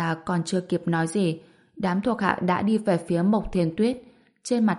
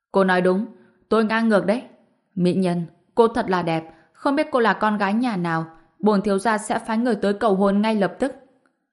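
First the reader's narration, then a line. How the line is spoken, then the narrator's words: Laughing speech. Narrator (Vietnamese): Thiếu niên cười lớn, nói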